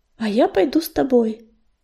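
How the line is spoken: Purring voice. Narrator (Russian): промурлыкала песчаная буря

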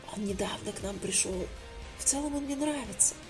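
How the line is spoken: Whisper. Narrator (Russian): шептала Юля Томе

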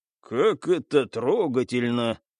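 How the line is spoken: Agreeing sigh. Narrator (Russian): соглашаясь с собеседником, вздохнул Стас

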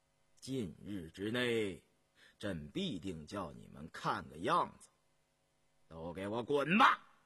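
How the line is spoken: Through gritted teeth, flat. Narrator (Chinese): 雍正咬着牙，语气淡淡地说

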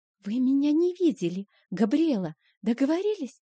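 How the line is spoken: Whisper. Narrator (Russian): прошептала Фрея

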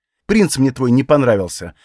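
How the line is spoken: Irritated. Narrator (Russian): ответила она раздраженно

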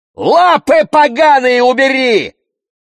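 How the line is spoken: Frantic distorted scream. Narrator (Russian): закричала я не своим голосом

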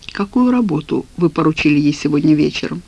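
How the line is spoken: Quiet question. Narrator (Russian): негромко спросил Александр Борисович

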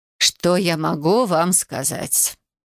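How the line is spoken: Stern woman sighing. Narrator (Russian): вздохнула строгая на вид женщина

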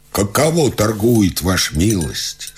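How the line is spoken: Plain. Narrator (Russian): спросил Адриан

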